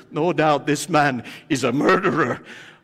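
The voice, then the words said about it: Put-on Maltese accent. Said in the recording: “I guess that's the Malta accent I'm doing so perfect.”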